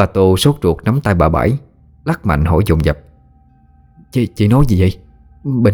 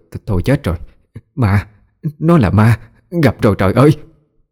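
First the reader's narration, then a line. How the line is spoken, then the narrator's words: Stammering, frightened. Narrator (Vietnamese): Miệng bà lắp bắp nói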